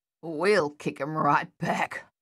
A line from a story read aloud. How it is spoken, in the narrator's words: Luther growled